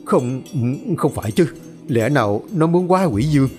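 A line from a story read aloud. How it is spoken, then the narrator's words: Terrified stammer. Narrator (Vietnamese): Thầy Quách mặt kinh hãi, miệng lắp bắp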